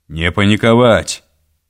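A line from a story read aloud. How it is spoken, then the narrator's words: Booming proclamation. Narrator (Russian): зычным голосом провозгласил коренастый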